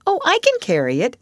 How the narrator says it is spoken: the child responded cheerfully

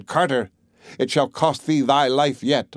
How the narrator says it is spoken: the sparrow began to flutter about and stretch out her neck and cried

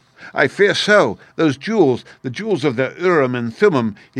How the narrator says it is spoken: he gasped, for he was out of breath with running

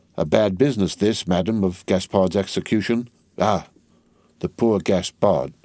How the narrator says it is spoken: with a sigh of great compassion

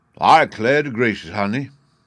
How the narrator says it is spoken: Uncle Remus exclaimed

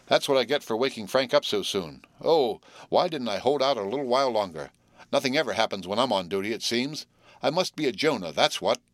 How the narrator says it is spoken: sighed Will, disconsolately

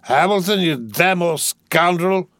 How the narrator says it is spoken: roared

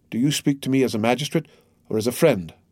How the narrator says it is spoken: asked Villefort

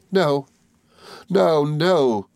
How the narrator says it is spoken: cried little Emily, sobbing

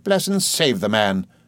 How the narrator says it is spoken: exclaimed my aunt sharply

